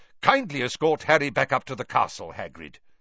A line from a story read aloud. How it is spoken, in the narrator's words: said Dumbledore sharply